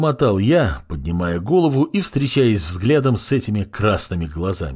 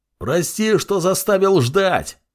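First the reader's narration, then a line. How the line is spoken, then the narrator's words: Yell. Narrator (Russian): заорал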